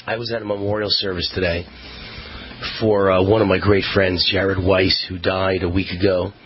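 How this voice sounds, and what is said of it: Hoarse, strained voice. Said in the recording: “I'm kind of losing my voice”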